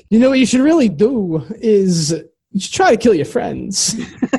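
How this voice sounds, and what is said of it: Christopher Walken impression. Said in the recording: “what if Slender Man... sounded like Christopher Walken.”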